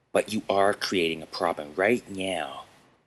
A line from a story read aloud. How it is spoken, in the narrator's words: Chad replied